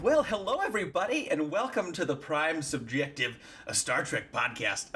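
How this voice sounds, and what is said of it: 90s radio DJ voice. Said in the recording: “my 90s DJ voice ... That was like three different voices.”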